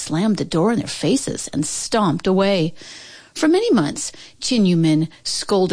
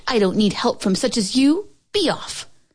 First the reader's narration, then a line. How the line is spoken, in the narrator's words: Chin Min scoffed